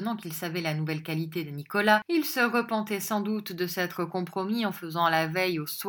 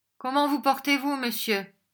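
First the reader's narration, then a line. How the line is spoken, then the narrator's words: Brusque. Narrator (French): dit Monsieur Lillyvick d'un ton brusque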